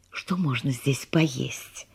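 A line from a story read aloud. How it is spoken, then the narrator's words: Whisper. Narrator (Russian): шепнула она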